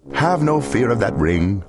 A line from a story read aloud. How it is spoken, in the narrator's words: laughed the Cat in the Hat